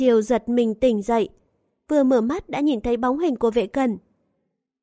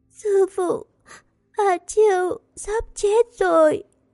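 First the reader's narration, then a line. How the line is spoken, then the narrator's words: Sobbing. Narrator (Vietnamese): A Chiêu nức nở nói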